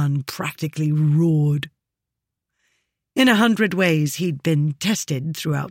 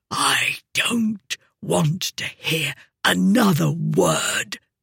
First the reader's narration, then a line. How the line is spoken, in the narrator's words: he said in a deathly whisper